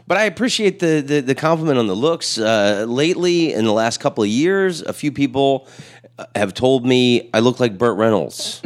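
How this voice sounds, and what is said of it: Raspy radio voice. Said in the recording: “You got like a great voice... that's mostly cigarettes... It gives you a great little radio raspy voice.”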